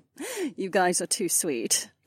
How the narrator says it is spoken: Cat laughed

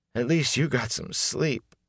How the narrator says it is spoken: Matt yawned

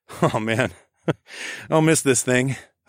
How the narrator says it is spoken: chuckled

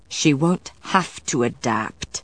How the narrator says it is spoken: Matthew said through gritted teeth

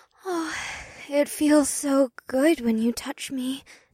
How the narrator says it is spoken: Una sighed

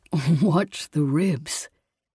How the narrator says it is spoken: he chuckled

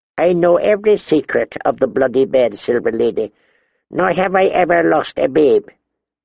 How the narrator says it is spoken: Miramar's door replied

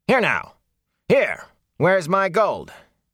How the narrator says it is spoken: Master Hightower called out angrily

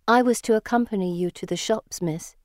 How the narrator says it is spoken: she says

